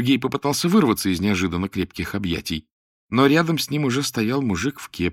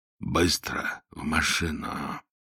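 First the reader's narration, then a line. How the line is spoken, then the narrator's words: Quiet. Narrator (Russian): Он тихо произнес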